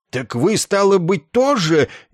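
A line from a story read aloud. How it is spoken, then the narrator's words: Frightened wail. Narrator (Russian): испуганно съежившись и отступая, возопил капитан Флум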